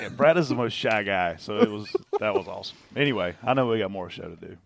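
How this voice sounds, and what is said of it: South Carolina Southern accent. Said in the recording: “which other spotter has the hardest accent to understand? ... I think they're probably referencing you. ... My accent's great. I'm from South Carolina.”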